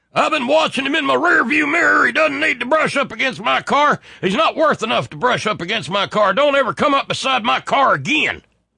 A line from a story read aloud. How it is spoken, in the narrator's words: Thomas Langdale yelled out